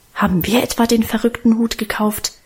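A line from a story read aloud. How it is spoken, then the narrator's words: Defiant mutter. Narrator (German): murmelte er trotzig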